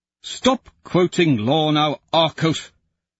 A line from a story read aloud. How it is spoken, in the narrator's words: Pliny snaps